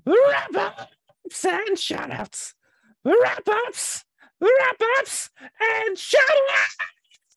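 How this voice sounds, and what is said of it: Goblin character voice. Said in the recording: “doing the goblin voice?”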